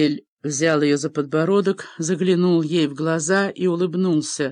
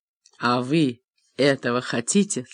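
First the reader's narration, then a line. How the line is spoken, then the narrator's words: Plain. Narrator (Russian): спросил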